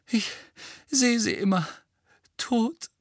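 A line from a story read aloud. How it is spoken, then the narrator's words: Groaning. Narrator (German): stöhnte Mrs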